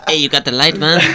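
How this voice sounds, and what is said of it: Put-on Mexican accent. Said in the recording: “he was Hispanic ... He sounded Mexican. Good job. ... Better. Way better.”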